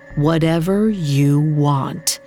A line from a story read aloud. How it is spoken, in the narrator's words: slowly said